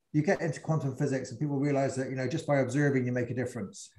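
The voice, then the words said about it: English Bristol regional accent. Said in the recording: “my regional accent from Bristol, my kind of, you know, class accent”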